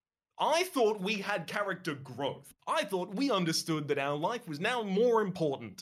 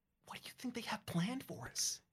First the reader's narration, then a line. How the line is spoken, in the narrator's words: You whisper